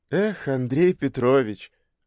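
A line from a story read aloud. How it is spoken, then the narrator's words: Sighing. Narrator (Russian): вздохнула она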